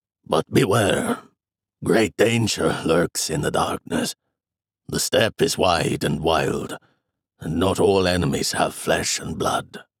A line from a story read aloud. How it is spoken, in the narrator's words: he said, pausing, his voice lowering to a rasp